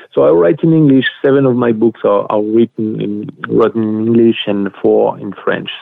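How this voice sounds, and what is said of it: Thick non-native English accent. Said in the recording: “that's not my first language ... my accent is still very thick”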